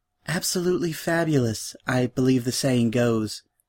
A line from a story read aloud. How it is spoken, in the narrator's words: she said in a soft voice